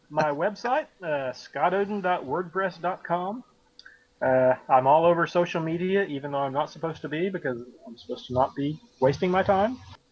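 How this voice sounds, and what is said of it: Mild Southern US accent. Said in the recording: “I have a fairly neutral accent for the South ... It's not heavy. It's definitely not a heavy accent ... You're doing like Hank Hill ... I sound like a pastor”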